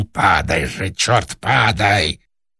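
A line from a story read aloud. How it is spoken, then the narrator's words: Fierce shouted whisper. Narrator (Russian): режиссер страшным шепотом крикнул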